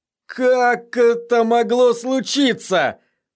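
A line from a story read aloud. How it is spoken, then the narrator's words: Moaning. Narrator (Russian): простонал сир Харрис Свифт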